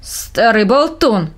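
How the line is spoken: Grumbling blacksmith. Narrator (Russian): проворчал кузнец

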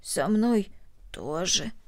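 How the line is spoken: Hoarse reply. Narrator (Russian): хрипло ответила Корнели

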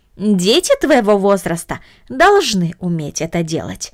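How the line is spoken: Plain. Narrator (Russian): сказала тетя

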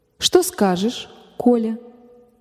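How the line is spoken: Soft tender mother. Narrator (Russian): мягко спросила мать, так же ласково

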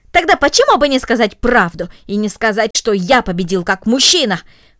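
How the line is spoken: Angry, disappointed exclamation. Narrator (Russian): воскликнул рассерженный, разочарованный Гренби

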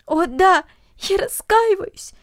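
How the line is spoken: Sobbing. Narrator (Russian): всхлипывала Люся

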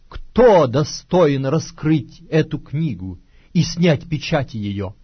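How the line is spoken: Loud proclamation. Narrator (Russian): ангела сильного, провозглашающего громким голосом

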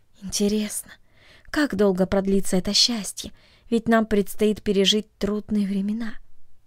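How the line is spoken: Sighing, asked inwardly. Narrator (Russian): тайно вздохнула и спросила себя

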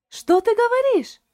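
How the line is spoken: Exclamation. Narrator (Russian): воскликнула Шарлотта

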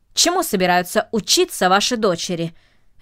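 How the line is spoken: Sharp question. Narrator (Russian): резко спросил джентльмен

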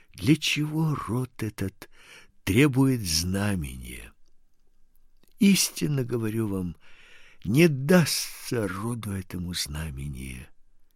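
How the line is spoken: After a deep sigh. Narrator (Russian): глубоко вздохнув, сказал

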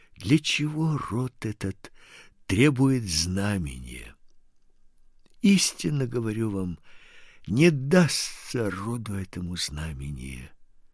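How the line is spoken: Deep sigh. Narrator (Russian): глубоко вздохнув, сказал

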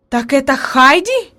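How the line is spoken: Exclaimed at last. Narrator (Russian): воскликнула наконец она

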